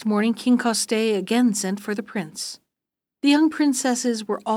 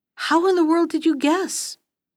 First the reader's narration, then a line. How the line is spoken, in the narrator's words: cried Coste in a fury